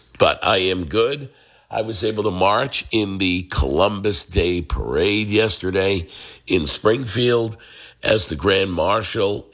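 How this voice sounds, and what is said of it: Rough, worn-out voice. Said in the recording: “you hear it in my voice. My voice is just has not recovered yet from being sick ... you cough a lot and things like that, and it'll destroy your voice”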